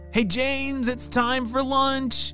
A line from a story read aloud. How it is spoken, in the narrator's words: shouted his parents